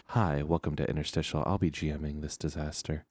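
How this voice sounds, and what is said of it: NPR-style radio host voice. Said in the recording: “doing my NPR voice”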